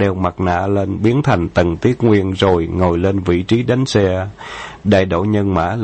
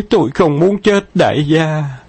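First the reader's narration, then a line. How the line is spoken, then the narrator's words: Fake trembling voice. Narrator (Vietnamese): Dương Thế Xuân giả run run giọng nói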